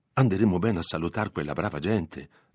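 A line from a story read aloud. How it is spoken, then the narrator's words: Plain. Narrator (Italian): disse Agnese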